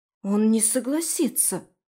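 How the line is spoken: Confident hiss. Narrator (Russian): уверенно прошипела Аби мне в другое ухо

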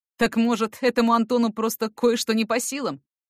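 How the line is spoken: Angry retort. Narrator (Russian): Зло вернул Эрик

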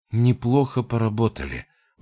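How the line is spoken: Tired exhale. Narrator (Russian): выдохнула

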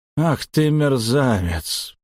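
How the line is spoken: Drawling. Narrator (Russian): протянул он

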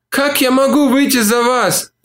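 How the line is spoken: Moaning. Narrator (Russian): простонала она

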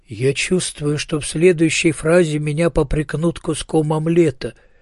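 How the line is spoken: Sad. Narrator (Russian): печально сказал он

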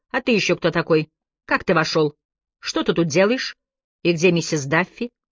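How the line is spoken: Stern question. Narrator (Russian): она строго спросила

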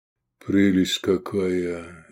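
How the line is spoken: Confused mutter. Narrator (Russian): растерянно пробормотал он

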